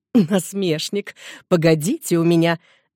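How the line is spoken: Laughing. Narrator (Russian): Мамаша Шаван рассмеялась

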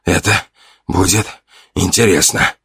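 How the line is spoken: Hoarse, strained. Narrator (Russian): хрипло выдавил я

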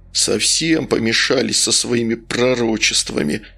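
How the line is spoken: Muttered under breath, audible. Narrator (Russian): пробурчал под нос Потапов, но недостаточно тихо

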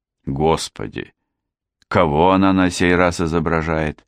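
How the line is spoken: Indignant sigh. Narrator (Russian): с негодованием вздохнул Хью

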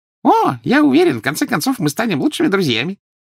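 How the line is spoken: Cheerful promise. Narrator (Russian): весело пообещал Дингл

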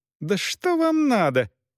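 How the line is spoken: Squeaky. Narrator (Russian): пищала Элеонора Августа

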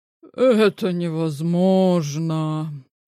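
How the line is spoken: Sympathetic sigh. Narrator (Russian): сочувственно вздохнул Илья

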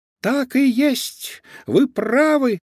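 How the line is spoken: Squeaky voice. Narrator (Russian): пропищал чей-то голос

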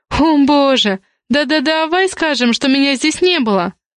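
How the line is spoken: Suggesting. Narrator (Russian): предложила Зоя

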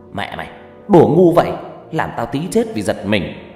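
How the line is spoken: Angry. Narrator (Vietnamese): Người thợ này nói với tôi bằng giọng giận dữ

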